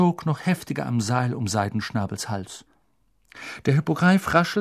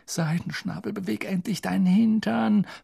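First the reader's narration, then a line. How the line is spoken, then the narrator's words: Pleading. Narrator (German): flehte Harry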